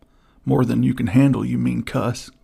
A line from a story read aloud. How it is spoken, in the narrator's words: cried Buffalo Bill